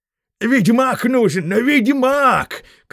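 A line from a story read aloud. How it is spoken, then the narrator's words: Shouting head prospector. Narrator (Russian): кричал, главный старатель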